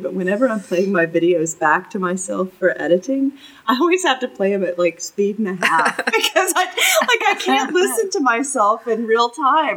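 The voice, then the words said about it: Southern US accent, slow speech. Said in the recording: “my accent, but I grew up in Jupiter, North Carolina, and I've lived in the South a lot of my life ... Plus, you talk slower.”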